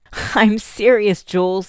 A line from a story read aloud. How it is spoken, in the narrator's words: he said, laughing